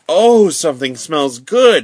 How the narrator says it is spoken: exclaimed Francis

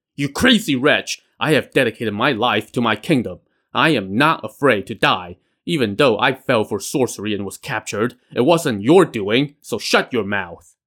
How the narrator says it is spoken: When he demanded that they show him respect, Nangong Kuo roared

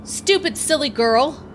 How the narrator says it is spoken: yelled an American soldier

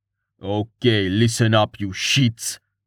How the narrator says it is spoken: he snarled

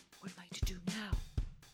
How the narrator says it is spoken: The man whispered to Lupin

